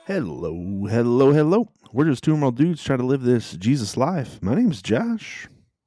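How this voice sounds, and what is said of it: Deliberately deep radio-style voice. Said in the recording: “Your voice is sounding especially deep this morning ... radio mode ... that deep, sexy voice”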